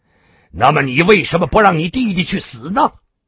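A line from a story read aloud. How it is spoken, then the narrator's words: Roaring. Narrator (Chinese): 小马的笑声突然停顿，大吼一声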